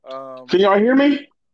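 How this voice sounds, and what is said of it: Yelling, loud aggressive voice. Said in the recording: “why are you yelling? ... Came in aggressive.”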